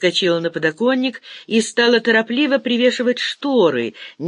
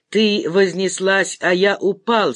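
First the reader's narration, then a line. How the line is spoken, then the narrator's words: Plain. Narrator (Russian): сказал Глеб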